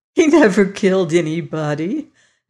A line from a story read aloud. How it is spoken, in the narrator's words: Molly laughed